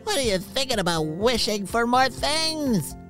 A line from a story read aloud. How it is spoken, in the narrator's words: Poppy shouted over him, nervously laughing